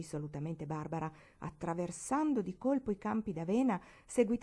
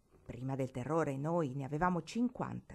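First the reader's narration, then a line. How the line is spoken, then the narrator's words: Plain. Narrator (Italian): disse Barbara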